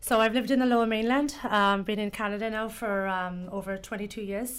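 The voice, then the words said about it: English accent, somewhat shifted. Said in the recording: “That's why the accent... excuse the accent... you've acquired this accent... Mine's changed though too over the years. Some people think it's South African or Australian”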